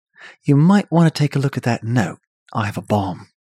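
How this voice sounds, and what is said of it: Put-on British accent. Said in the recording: “That's a good accent. ... Tom Hiddleston is British ... But it plays better if he's British.”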